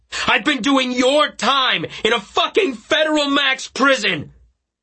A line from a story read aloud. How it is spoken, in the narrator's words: I yelled so loudly